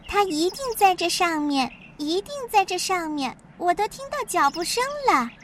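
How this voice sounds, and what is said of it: Very shrill, high-pitched voice. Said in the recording (Chinese): “用很尖的声音说”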